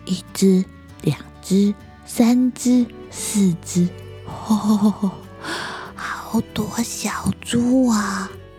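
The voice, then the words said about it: Quiet, hushed counting. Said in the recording (Chinese): “小小声的数着”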